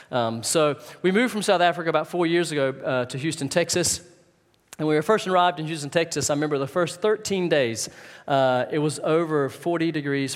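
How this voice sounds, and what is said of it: Mixed Southern US and South African accent. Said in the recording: “I know my accent's all over the place. I'm originally from North Carolina ... I was really southern ... moved to South Africa a number of years ago ... so my accent now is thoroughly mixed up.”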